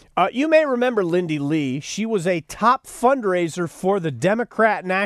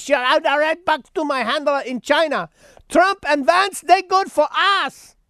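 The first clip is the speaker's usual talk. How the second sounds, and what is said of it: Exaggerated put-on Chinese accent. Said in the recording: “I slipped into my unintelligible Chinese accent there”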